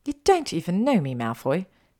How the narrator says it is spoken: she spat

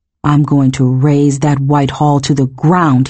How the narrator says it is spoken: he snarled

